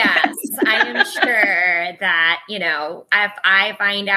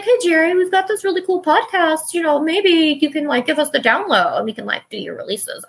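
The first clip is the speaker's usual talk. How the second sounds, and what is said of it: Weird put-on voice. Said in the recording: “That was a really weird voice”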